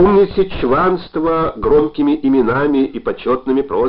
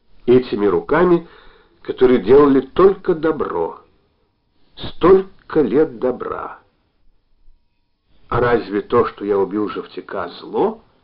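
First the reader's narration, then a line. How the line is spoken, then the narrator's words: Quiet question. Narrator (Russian): тихо осведомился Постников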